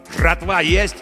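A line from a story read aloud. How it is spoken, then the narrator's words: Angry stranger's bark. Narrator (Russian): гаркнул злой незнакомый голос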